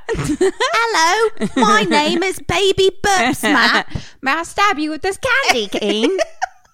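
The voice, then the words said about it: Put-on British accent. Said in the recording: “he would have had a British accent”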